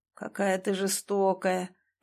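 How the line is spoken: Groan. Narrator (Russian): простонал Клим

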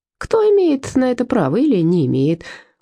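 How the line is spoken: Cheerful. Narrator (Russian): весело продолжил

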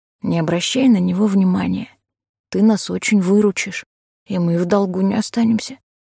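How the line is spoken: Whisper. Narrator (Russian): шепнул он

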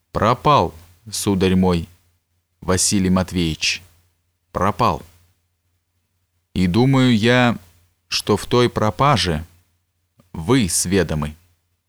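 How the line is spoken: Slow, clipped, deliberate. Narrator (Russian): он, медленно отчеканивая каждое слово, сказал

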